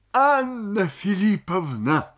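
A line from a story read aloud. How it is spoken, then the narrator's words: Sobbing. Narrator (Russian): сказал, всхлипывая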